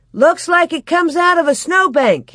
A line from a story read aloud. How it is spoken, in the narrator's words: he shouted